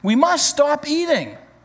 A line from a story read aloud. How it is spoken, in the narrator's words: cried Toad as he ate another